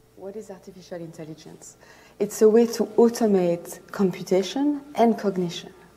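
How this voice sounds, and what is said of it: Thick foreign accent. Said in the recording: “her words are a little hard to hear, so pay close attention, as she has a thick accent.”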